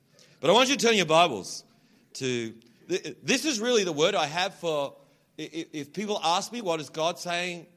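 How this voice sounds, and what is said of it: Toned-down Australian accent. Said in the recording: “I have to kind of change my accent a little bit, otherwise, you don't understand me ... when I'm like really Australian”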